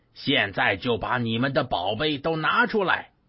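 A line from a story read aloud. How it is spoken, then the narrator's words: Yelling. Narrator (Chinese): 他们对他大喊大叫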